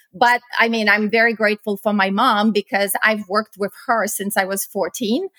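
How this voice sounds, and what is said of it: Eastern European accent. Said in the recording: “if you can tell from my accent, I was born in Eastern Europe”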